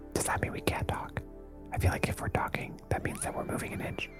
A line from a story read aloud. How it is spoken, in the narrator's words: whispers to his brother